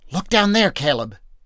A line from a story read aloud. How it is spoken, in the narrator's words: Joshua whispered urgently